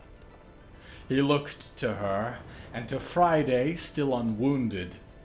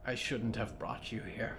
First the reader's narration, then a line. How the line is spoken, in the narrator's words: Friday whispered